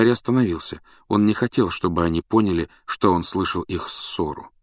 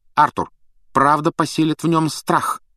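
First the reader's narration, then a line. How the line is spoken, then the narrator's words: Sharp. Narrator (Russian): резко сказала миссис Уизли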